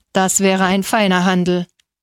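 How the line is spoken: Growling. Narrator (German): knurrte Donizetti

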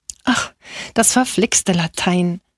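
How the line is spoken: Sighing. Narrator (German): seufzte Angelo

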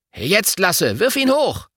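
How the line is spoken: Calling out. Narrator (German): Finn … ruft dann

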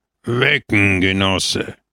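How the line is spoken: Grumbling in bad Italian. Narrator (German): Jemand brummte im schlechtesten Italienisch

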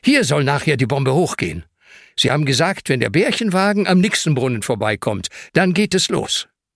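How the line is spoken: Called out. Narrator (German): ruft Ben

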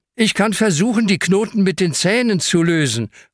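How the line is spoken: Calling out. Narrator (German): ruft Hanna

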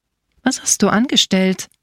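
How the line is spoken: Plain question. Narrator (German): fragte die Bäuerin

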